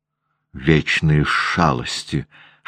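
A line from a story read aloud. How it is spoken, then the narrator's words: Hissed. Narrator (Russian): шипела Анна Григорьевна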